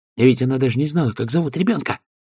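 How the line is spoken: Whisper. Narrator (Russian): прошептала Пердита

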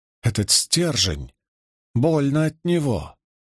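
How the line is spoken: Muttered. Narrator (Russian): пробормотала она

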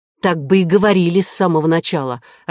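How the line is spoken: Snapping retort. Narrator (Russian): огрызнулась Кора

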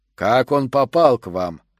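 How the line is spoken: Menacing drawl. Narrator (Russian): грозно растягивая слова, спросил Шутер

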